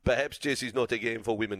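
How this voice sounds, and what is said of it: Put-on accent quoting someone. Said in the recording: “that's not his accent. I don't know why I put that accent on.”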